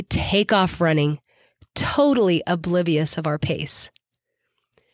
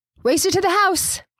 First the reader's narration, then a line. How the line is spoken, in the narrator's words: someone else would holler out